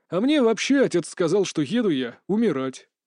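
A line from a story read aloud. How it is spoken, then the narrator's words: Bitter snort. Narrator (Russian): горько хмыкнул Олег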